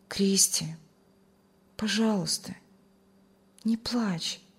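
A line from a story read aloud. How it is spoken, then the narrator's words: Gentle loving. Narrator (Russian): Он с любовью и заботой ласково сказал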